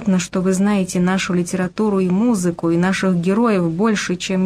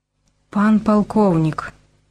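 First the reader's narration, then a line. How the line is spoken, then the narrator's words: Young woman's trembling voice. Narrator (Russian): дрогнувшим голосом сказала девушка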